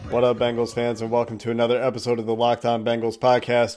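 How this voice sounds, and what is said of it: Slightly sick, congested voice. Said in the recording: “I've got a little bit of a cold.”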